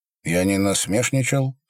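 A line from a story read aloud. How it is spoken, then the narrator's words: Calm. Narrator (Russian): сказал он спокойно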